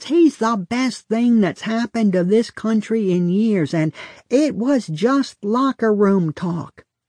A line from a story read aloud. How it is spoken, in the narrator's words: my father shouts